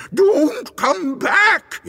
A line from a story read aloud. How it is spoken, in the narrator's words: screamed